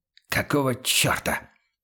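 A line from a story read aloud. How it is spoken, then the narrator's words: Irritated whisper. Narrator (Russian): Раздраженным шепотом обратился он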